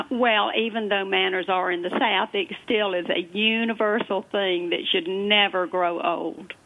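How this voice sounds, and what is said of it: Southern American accent. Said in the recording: “How did I know that you would have a Southern accent?”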